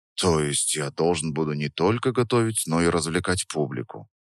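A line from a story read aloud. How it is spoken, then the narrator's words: Theatrical sigh. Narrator (Russian): Я картинно вздохнул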